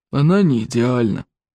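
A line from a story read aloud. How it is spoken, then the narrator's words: Gloomy admission. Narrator (Russian): мрачно признал Стоик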